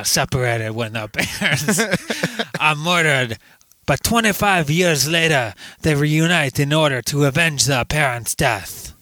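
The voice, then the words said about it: Imitates another person's voice. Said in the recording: “You sound like Master Splinter ... my Van Damme impression”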